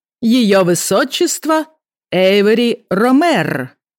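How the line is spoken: Loud announcement, reading aloud. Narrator (Russian): громко объявила Ифа Арнелла, зачитывая рейтинговую карточку

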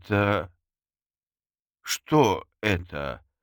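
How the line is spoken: Stammering question. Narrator (Russian): запинаясь, спросила Мерли

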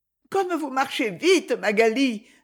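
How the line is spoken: Breathless exclamation. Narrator (French): s'écria une voix essoufflée

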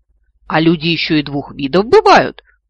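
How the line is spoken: Awkward exclamation. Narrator (Russian): Вновь не в попад воскликнул левый

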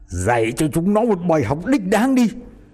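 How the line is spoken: Harsh, gritted voice. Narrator (Vietnamese): Tên Hòe gằn giọng

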